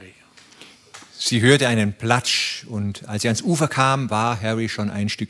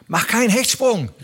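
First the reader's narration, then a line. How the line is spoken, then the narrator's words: Called out. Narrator (German): rief er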